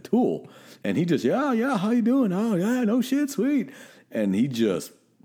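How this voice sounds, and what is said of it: Put-on Georgia Southern accent. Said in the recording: “Is that your Georgia accent? ... Yeah, that was my Georgia accent.”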